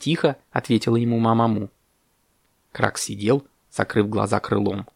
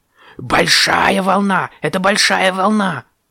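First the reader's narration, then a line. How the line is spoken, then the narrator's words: Loud shouting. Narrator (Russian): громко кричал Кракс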